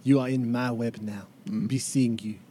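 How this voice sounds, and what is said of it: Poor put-on French accent. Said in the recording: “practice my French accent because that was terrible”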